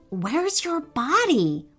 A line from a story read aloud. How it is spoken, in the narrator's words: whispered Oscar